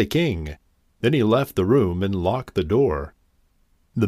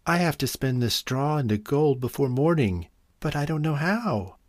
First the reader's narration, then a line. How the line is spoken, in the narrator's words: replied sadly